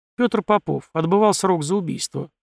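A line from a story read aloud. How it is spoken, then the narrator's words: Plain. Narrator (Russian): ответил я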